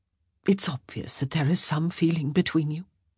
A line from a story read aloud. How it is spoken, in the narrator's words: she said gently